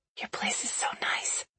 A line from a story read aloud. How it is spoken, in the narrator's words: I whisper